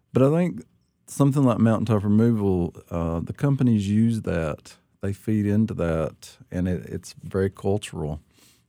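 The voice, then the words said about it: Appalachian accent. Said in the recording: “lots of Appalachians will say, I had to learn how to talk right. I've got a bad accent... I kept my accent”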